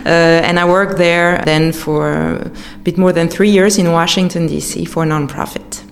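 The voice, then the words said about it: American English accent. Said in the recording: “that's where I learned American English. ... As you can hear your accent. ... Yes, as you can hear it.”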